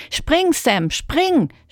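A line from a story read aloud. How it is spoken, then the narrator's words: Shout. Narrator (German): schrie Manu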